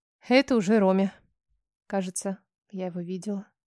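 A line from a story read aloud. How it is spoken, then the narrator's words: Quiet statement. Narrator (Russian): тихо сообщила я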